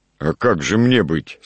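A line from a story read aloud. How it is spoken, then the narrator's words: Plain. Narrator (Russian): сказал мельник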